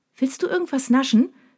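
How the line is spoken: Cheerful question. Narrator (German): fragt sie mich fröhlich

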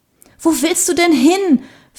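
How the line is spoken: Panting question. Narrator (German): fragte Sarah keuchend

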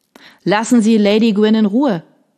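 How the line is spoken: Called out. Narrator (German): rief Major Wolf

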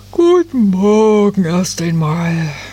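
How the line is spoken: Tired. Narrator (German): sagte da die Nadelfee müde

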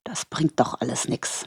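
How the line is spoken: Muttered. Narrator (German): murmelte

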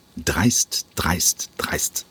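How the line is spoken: Murmured while walking away. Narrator (German): murmelte der Intendant im Gehen

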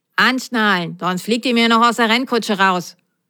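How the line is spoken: Stern. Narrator (German): sagte die Nummer 12 streng

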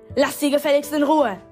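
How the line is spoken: Bellowed. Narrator (German): brüllte ich

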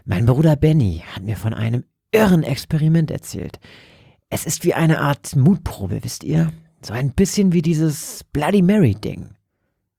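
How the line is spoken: Whisper. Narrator (German): flüsterte Roger

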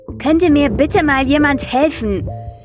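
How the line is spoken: Calling out. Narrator (German): rief er schließlich

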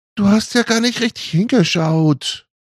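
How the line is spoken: Indignant call. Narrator (German): rief Ellie empört

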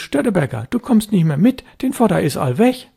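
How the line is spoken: Fisherman calling out. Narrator (German): Jan Husten, der Elbfischer, rief ihm zu

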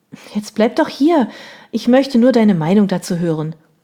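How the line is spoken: Calling out. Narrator (German): rief ich

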